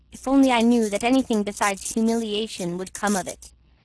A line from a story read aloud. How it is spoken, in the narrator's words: answered her son coldly